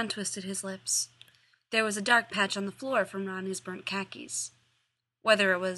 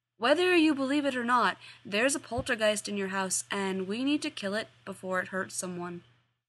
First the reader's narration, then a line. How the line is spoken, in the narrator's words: Sam said